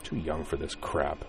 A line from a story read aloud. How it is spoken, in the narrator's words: Corwin muttered